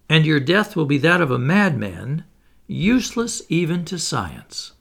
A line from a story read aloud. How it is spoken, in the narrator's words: he cried